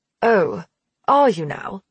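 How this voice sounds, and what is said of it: Convincing British accent. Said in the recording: “easily slipping into a perfect British accent. Much better than Donovan's.”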